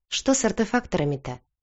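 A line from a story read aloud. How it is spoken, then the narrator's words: Businesslike tone. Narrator (Russian): деловым тоном уточнила помощница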